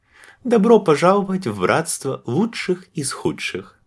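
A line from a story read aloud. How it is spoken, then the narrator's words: Laughing. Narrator (Russian): рассмеялась она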